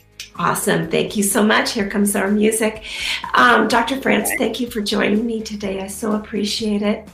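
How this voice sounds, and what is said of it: Hoarse, nearly lost voice. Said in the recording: “My voice is about gone ... I'll have my voice with me next week”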